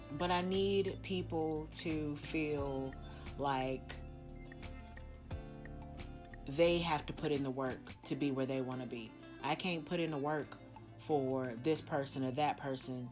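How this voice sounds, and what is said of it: Slightly shaky, emotional voice. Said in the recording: “no, I'm not crying. It's just my voice is a little shaky.”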